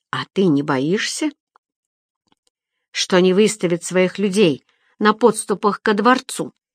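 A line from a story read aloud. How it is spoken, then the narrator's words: Plain. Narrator (Russian): спросил он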